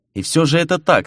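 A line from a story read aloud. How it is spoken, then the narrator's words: Calm declaration. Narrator (Russian): спокойно заявил Фернан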